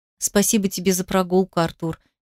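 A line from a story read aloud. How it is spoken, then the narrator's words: Soft, smiling. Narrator (Russian): мягко улыбнулась Ира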